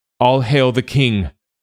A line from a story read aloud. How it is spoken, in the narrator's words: they cried as one